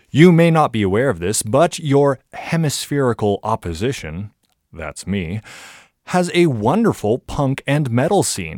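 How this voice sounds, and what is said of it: American Californian accent. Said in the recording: “my absolutely bizarre accent ... I am in fact an American ... I am from California”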